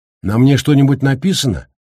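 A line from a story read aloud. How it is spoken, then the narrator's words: Irritated. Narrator (Russian): раздраженно обратился к нему Гаррити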